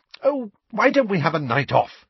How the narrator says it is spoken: said Hermione brightly

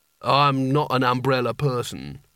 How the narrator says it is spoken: said the genie sulkily

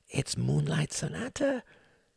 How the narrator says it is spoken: whispered Klaus in strange exultation

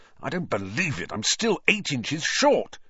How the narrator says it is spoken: said Ron furiously

